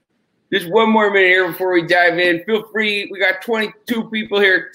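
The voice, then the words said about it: Chicago accent. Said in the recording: “You can tell from the way I'm talking. I'm from Chicago ... I don't have the accent like he does”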